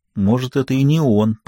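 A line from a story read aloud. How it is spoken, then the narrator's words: Whispered reply. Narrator (Russian): прошептал в ответ Джеффри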